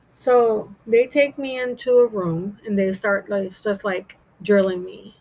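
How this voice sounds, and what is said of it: American accent. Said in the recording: “You don't sound Jamaican, you sound American.”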